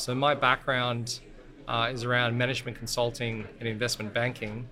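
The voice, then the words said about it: Australian accent. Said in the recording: “by the accent, I was born in Australia”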